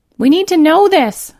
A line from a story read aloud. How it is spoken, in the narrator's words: Callie shouted